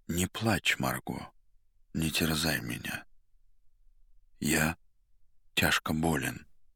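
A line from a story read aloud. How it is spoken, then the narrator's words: Muffled, hollow voice. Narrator (Russian): Мастер глухо сказал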